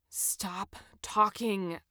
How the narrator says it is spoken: I said to him under my breath

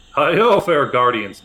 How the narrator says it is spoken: bellows the dwarf

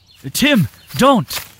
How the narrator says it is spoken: Aylin shouted from nearby

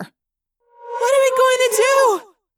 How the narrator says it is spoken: Cassie wailed

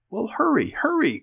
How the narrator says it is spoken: cried Mink

